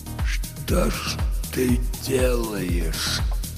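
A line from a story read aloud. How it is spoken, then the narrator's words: Whisper. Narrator (Russian): прошептал он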